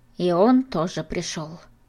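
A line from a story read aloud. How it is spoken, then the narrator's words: Sighing old woman. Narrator (Russian): вздохнула баба Глаша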